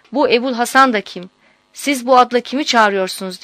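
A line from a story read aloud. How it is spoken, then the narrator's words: Cried out. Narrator (Turkish): diye haykırmış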